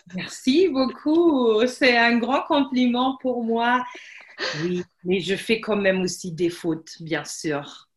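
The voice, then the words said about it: Slight Alsatian-like French accent. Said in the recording (French): “tu as un petit accent comme les Alsaciens ... on dirait que tu es alsacienne”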